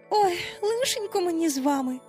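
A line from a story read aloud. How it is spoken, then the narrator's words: Sigh. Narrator (Ukrainian): знов зітхнула Венді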